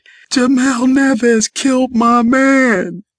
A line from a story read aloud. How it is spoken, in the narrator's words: Crying hysterically, she said